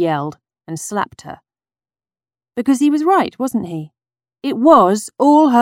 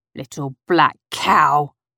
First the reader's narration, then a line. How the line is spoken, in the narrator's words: he spat at her